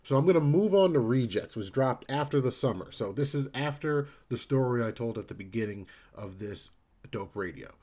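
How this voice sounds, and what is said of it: New Jersey accent. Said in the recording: “Jersey accent makes that hard for me to enunciate”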